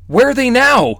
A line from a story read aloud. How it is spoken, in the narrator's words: shouted, sprinting